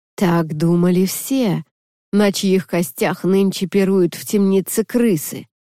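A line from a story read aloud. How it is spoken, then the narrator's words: Sepulchral howl. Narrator (Russian): могильным голосом провыл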